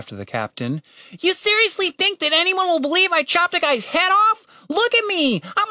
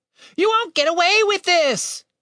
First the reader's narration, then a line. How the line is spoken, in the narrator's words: Tim shouted